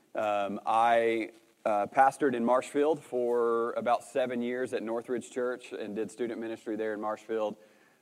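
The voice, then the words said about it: Arkansas Southern US accent. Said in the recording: “moved them to Arkansas, which is where I'm originally from, if you can't tell from my accent”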